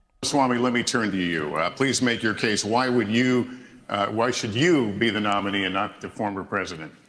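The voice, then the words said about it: Polished, robotic radio-host voice. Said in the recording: “voice sounds like an AI-generated radio host's voice ... an AI-generated robot version of what everyone expects a radio voice to be”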